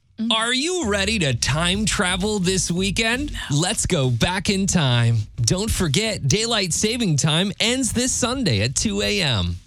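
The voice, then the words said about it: Newscaster or commercial announcer voice. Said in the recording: “my best news impression ... That was not the news. That was Old Navy. Like to a T.”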